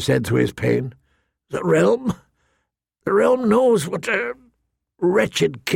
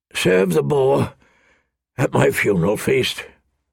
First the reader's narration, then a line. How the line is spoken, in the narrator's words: Robert rasped